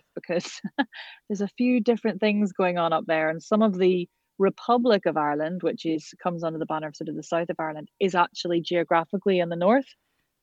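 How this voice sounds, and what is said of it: Northern Irish accent, rising upglide. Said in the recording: “your accent is quite different to someone from the south of Ireland ... A lot of Northern Irish accents sort of tend to end up at the end of sentences. We have a kind of upglide, which often sounds a wee bit questioning”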